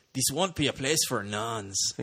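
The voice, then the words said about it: Put-on Brazilian or Mexican accent. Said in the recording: “Is that your Brazilian accent? ... I think that's Mexican.”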